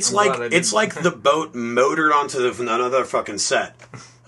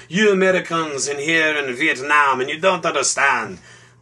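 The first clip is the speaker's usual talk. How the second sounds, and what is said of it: Mock French accent. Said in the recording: “my Frenchy accent”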